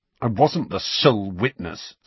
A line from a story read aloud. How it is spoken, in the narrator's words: snarled Harry